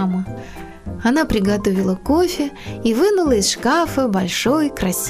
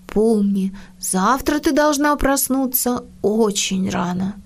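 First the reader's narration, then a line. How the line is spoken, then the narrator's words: Deep sigh, to herself. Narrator (Russian): она вздохнула глубоко-глубоко и сказала самой себе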